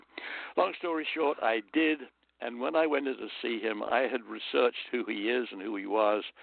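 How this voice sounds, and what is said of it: British accent. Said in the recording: “you have a British accent.”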